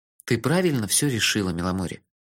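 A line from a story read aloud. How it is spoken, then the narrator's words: Soft, gentle voice. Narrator (Russian): мягко сказал я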